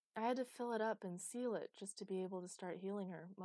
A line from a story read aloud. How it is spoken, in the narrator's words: mumbled Chloe